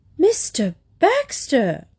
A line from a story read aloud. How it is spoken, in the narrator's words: cried Lady Constance